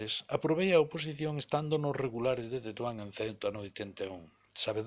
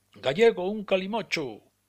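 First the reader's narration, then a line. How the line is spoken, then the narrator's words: Shouted. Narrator (Galician): o berro máis habitual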